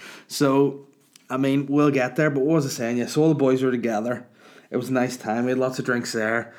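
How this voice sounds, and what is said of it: Usual voice. Nothing is said of it.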